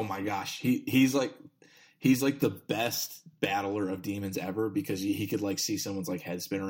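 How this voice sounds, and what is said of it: Usual voice. Nothing is said of it.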